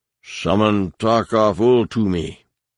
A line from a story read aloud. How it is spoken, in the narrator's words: Savang Law thundered